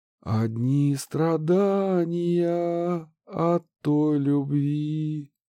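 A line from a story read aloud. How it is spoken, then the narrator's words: Drawling. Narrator (Russian): протянула певичка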